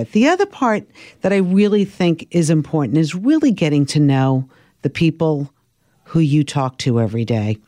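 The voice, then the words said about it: Slight Brooklyn accent. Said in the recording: “I was trying to work on my Brooklyn accent ... when I got rid of the Brooklyn accent, not that I ever did, but cleaned it up a little bit”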